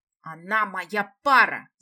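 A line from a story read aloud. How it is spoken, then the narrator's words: Roared by young man. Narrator (Russian): взревел молодой мужчина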